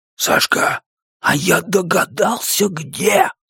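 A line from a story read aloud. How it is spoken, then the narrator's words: Dramatic whisper. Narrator (Russian): Страшным шепотом говорит Зуко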